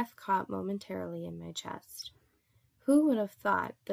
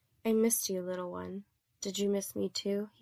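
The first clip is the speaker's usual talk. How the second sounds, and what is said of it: Soft gentle male voice. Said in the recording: “he asked in a soft voice, the voice that melts my resolve each time I hear it”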